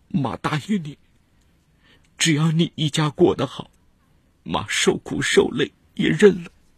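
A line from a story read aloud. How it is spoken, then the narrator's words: Heartbroken, crying. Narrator (Chinese): 赵定菊心都碎了 哭着说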